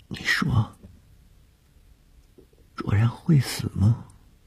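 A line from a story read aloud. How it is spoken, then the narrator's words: Frightened offhand question. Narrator (Chinese): 谢小婷在天亮之前的惊恐中一句无意的问话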